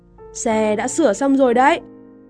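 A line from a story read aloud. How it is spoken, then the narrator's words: Raised voice. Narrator (Vietnamese): Anh cao giọng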